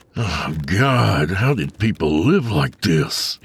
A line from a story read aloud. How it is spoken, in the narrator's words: he groaned